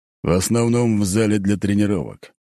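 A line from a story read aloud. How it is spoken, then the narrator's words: Snorting. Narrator (Russian): хмыкнул тот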